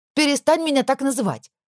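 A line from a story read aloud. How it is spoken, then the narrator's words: Sharp and loud. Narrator (Russian): Вышло резко и достаточно громко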